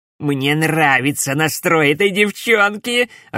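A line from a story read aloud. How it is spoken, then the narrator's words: Loud laughter. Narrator (Russian): расхохотался Дамион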